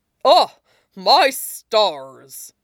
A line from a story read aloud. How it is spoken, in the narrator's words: All Might barked a laugh